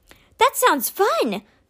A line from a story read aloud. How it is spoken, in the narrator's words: Ty cried